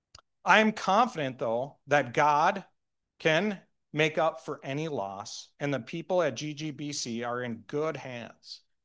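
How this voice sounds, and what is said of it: Minnesotan accent. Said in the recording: “I'm working on my southern accent ... I still sound like a Minnesotan”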